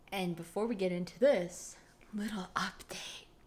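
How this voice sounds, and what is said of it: Creepy whisper. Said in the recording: “why are you doing the creepy voice again? ... I'm trying to whisper, but not talk too loud.”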